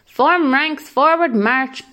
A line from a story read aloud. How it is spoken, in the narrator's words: barked Polo